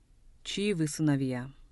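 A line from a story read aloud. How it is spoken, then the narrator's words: Soft question. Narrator (Russian): мягко спросил Лисовский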